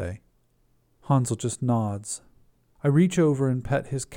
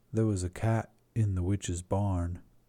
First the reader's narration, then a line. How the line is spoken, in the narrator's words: Hansel says softly